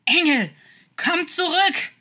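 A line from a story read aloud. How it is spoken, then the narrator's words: Loud echoing scream. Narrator (German): schrie er lautstark und seine Stimme hallte in der Nacht wieder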